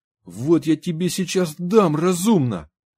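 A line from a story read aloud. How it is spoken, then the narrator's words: Shouted. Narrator (Russian): крикнул Сергеев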